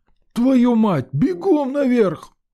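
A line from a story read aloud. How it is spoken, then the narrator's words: Yelling. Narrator (Russian): заорал Сидор Кузьмич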